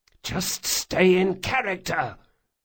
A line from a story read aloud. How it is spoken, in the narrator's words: Locke hissed